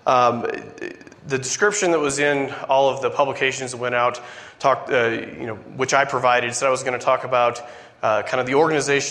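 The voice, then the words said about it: Weak, recovering lost voice. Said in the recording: “I apologize for my voice. It went away this week and is slowly coming back.”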